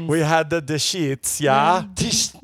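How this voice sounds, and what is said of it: Put-on Dutch accent. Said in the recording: “But also I use my Dutch accent. ... That was your Dutch accent.”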